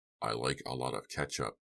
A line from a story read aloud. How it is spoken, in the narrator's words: Press muttered